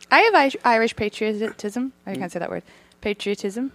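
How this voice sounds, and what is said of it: Irish accent. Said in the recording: “You're from Ireland, right? ... That explains the accent”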